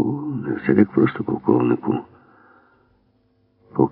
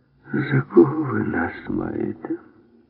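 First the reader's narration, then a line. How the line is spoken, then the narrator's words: Tired. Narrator (Ukrainian): втомлено промовив Крамер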